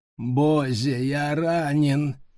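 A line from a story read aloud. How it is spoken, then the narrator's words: Nasal whine. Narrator (Russian): загнусавил с заднего сиденья Брайан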